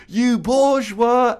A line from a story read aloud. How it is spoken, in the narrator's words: the guy starts screaming